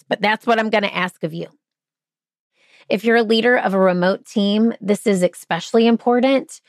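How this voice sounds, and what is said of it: Hoarse voice. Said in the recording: “My voice got hoarse”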